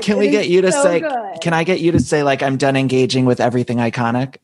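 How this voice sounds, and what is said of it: Usual voice. Nothing is said of it.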